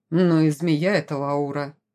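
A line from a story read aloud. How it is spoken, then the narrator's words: Grumbling. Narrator (Russian): проворчал Ворон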